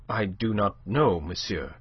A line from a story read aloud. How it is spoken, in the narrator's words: she said, her voice unsteady